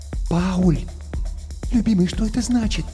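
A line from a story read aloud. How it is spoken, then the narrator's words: Whispered question. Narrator (Russian): шепотом спросила Гретхен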